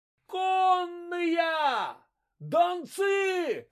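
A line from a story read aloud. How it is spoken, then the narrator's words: Lookouts shouting. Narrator (Russian): закричали наблюдатели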